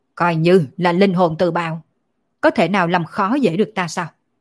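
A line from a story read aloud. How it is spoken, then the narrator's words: Loud shout, spitting blood. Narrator (Vietnamese): Thánh quân quát to một tiếng, phun ra một ngụm máu tươi, quát lên nói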